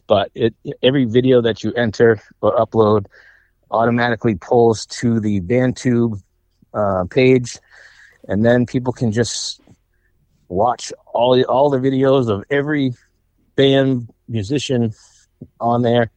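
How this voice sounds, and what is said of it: Out of breath, breathy speech. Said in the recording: “Sorry if I'm out of breath.”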